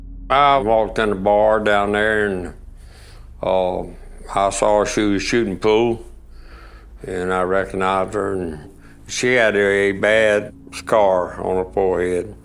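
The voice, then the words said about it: Thick regional accent. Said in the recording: “Thick accent”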